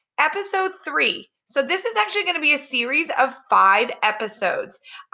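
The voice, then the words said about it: Slightly raspy voice. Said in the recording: “I've got a little bit of a raspy voice ... Allergies are definitely getting the best of me lately.”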